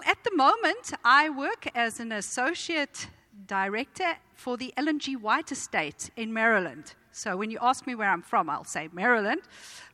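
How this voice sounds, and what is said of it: Mild South African accent. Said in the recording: “I didn't pick up this accent. I was born with it. ... This is a South African accent, although it, it has been quite diluted”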